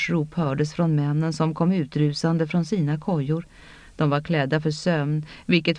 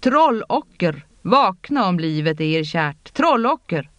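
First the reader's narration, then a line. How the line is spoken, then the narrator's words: Roared. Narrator (Swedish): Han vrålade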